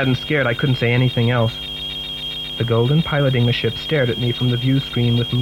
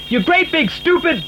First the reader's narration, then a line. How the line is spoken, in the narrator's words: shouted